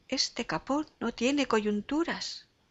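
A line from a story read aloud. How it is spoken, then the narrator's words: Strained, struggling exclamation. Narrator (Spanish): exclamaba el infeliz, sudando y forcejeando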